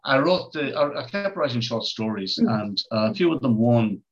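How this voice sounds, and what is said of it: Strong, hard-to-understand accent. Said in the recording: “It's my accent. Nobody has a bloody clue what I'm talking about.”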